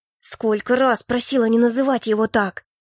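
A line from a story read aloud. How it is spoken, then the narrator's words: Through gritted teeth. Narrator (Russian): Сквозь зубы процедила я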